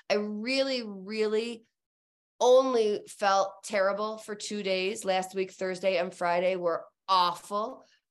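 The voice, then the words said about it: Congested, sick-sounding voice. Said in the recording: “hear it in my voice, I caught the flu cold ... I am congested”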